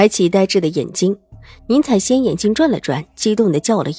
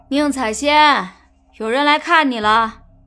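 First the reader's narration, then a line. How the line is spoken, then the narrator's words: Female jailer, loud. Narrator (Chinese): 女牢头 大声的道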